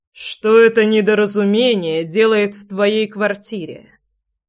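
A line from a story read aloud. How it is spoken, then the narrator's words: Icy, thundering voice. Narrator (Russian): Ледяным голосом прогремел Влад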